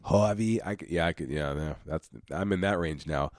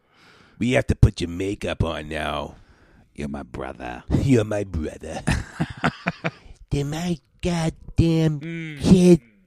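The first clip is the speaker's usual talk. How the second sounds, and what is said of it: Deep scratchy Harvey Fierstein impression. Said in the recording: “That gay guy with the deep voice... with the scratchy voice... Harvey Firestein”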